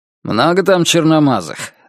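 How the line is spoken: Abrupt, clipped question. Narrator (Russian): отрывисто спросил он

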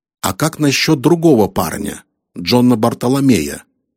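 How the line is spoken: Plain. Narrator (Russian): спросил Харрисон

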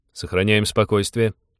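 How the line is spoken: Calm, even command. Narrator (Russian): ровным тоном приказал Станислав

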